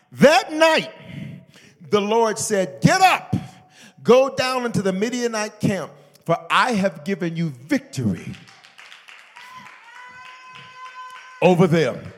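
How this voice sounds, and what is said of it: Shouting preacher delivery. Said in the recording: “why am I shouting”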